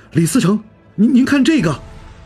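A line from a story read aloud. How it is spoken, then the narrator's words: Sudden loud call. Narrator (Chinese): 垫脚一个小吏突然高声道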